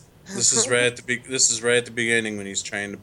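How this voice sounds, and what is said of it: Usual voice. Nothing is said of it.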